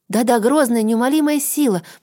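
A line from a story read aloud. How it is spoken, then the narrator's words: Quick speech. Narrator (Russian): быстро продолжала Филифьонка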